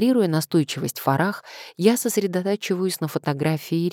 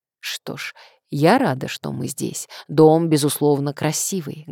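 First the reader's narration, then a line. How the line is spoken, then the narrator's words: Plain. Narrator (Russian): говорит Фарах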